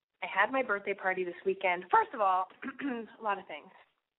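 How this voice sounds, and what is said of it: Sniffly, nasal sick voice. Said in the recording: “I'm clearly getting sick again. Can you hear this in my voice? ... You can hear it in my voice. I'm all sniffly and nasally”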